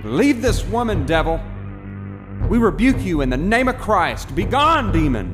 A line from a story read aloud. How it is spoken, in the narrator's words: Men began shouting